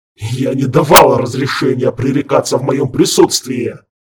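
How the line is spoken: Growled. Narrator (Russian): Рыкнул Харган

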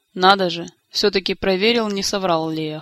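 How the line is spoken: Snorting. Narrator (Russian): хмыкнул Кантор

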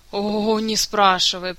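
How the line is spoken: Miserable groan. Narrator (Russian): простонал несчастный герой

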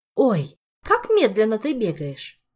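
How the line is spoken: Exclamation. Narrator (Russian): воскликнула Дана

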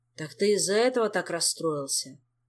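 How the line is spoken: Tired sigh. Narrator (Russian): Устало вздохнул Кантор

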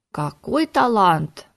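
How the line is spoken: Delighted exclamation. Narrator (Russian): восторженно воскликнула советница

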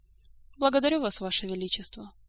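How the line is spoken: Even, calm. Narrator (Russian): точно так же ровно и спокойно ответила Эльвира

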